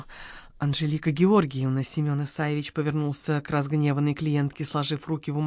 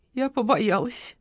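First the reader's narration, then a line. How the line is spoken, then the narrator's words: Miserable breathless exhale. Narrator (Russian): выдохнула, наконец, несчастная Агеева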